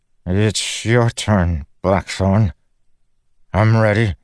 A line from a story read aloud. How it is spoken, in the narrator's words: the young man stood up and stammered